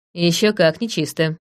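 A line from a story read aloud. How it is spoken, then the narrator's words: Snorting. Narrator (Russian): фыркнула я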